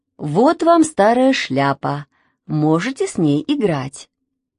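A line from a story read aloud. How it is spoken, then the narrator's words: Plain. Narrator (Russian): сказала Машина мама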